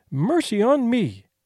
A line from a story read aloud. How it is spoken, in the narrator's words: exclaimed